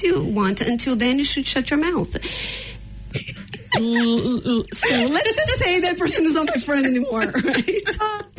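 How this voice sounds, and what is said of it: Brazilian-accented English. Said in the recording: “your cool Brazilian accent”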